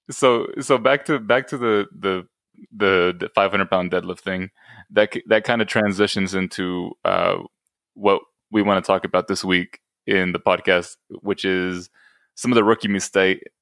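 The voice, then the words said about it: Sudden unexplained accent, laughing. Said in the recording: “Why do I have an accent all of a sudden? I can't stop laughing.”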